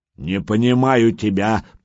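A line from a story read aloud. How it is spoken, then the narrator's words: Growled. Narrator (Russian): прорычал детинушка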